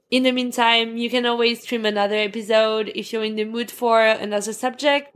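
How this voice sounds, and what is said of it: Speaks English with an accent. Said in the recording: “I know my accent isn't the best”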